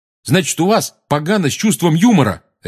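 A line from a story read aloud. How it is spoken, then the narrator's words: Angry bark. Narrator (Russian): рявкнул Рон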